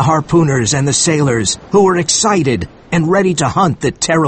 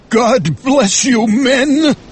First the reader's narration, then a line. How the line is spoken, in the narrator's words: said Ahab, his voice shaking